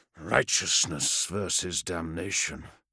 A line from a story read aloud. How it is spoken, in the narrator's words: Vandus murmured to himself